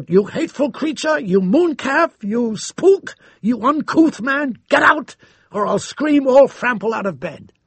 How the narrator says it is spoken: She screamed out

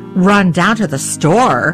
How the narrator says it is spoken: my father thundered

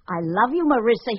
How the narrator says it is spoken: shouted

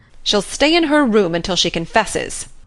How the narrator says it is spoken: said Marilla grimly

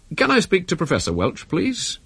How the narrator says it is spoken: In an almost normal tone, he said

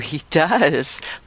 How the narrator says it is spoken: laughed Wilder, in a state of elation

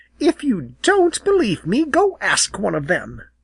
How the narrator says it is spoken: she snapped

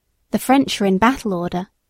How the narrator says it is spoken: he said

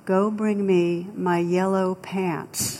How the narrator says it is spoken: the captain very calmly replied

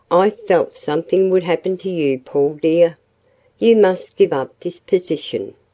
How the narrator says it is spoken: sighed Hazel

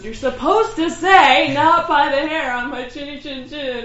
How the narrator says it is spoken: Miss Piggy yells, like

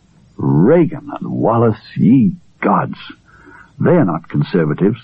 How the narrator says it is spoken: he said scornfully

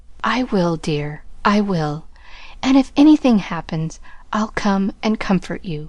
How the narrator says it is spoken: whispered Laurie

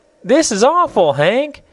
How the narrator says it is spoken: cried Betsy in a loud voice

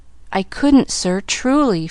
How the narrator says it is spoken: faltered Pollyanna

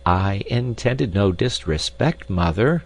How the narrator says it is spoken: said Peter

